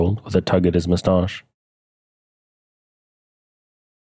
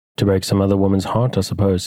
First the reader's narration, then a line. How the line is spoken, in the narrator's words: said Mrs